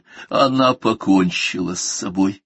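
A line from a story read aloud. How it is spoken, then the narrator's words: Hoarse. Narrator (Russian): хрипло проговорила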